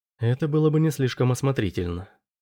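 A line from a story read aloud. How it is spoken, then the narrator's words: Whispering. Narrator (Russian): прошептала арбитр Бэк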